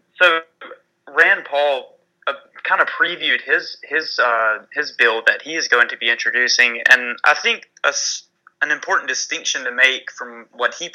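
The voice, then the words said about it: Thick Southern American accent. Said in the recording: “my southern accent is coming out way too thickly”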